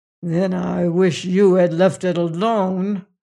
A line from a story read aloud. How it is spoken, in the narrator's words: snarled Piera